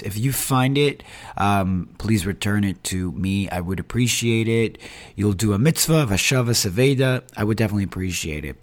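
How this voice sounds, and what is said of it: Hoarse, strained voice. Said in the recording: “I don't know if you could tell with the audio, but I did lose my voice.”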